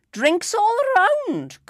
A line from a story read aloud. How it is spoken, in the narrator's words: cried Bob the Fiddle